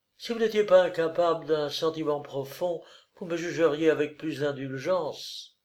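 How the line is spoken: Exclaiming. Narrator (French): s'écria-t-elle

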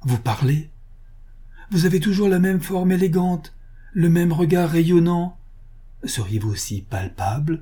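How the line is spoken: Exclaimed. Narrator (French): s'écria Vatek

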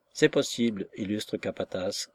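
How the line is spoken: Gruff. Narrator (French): répondit d'un ton bourru

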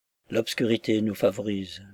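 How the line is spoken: Foreman whispering in ear. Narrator (French): murmurait le capataz à son oreille

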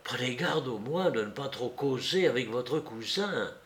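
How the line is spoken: Whisper in ear. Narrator (French): murmurai-je à l'oreille

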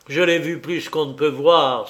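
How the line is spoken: Forceful exclamation. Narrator (French): s'exclama Paul avec force

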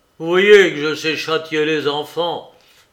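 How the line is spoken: Sneering. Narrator (French): ricana Heathcliff

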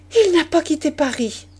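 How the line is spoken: Exclamation. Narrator (French): s'écria-t-elle

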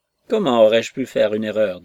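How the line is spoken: Curt, father. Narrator (French): dit le père sèchement

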